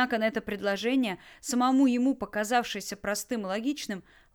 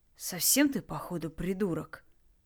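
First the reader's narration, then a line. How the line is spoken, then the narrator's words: Through gritted teeth. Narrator (Russian): процедила Лара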